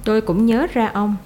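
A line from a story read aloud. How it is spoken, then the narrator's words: Plain. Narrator (Vietnamese): Mark Rivi nói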